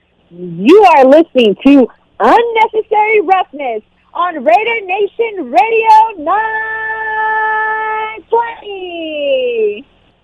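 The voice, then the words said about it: Pro wrestling ring announcer voice. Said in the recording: “in your ring announcer voice”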